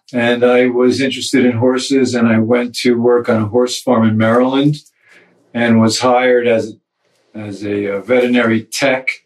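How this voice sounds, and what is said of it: New Jersey accent. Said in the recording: “I'm from New Jersey, as most people can hear from my accent.”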